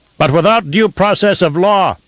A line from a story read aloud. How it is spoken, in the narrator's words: shouted one dissenter, a tiny voice in the immensity of the Lansrad Hall